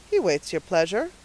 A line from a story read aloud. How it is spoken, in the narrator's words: said the trooper dryly